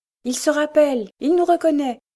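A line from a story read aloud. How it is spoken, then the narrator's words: Exclaiming. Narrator (French): s'écria Dame Brinker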